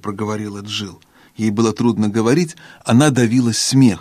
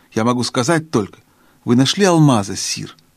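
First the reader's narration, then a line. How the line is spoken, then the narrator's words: Plain question. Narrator (Russian): спросила Джилл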